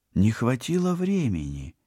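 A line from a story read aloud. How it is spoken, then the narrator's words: Uncertain guess. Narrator (Russian): неуверенно предположила Полина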